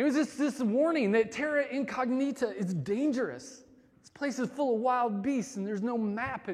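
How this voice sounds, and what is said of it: Usual voice. Nothing is said of it.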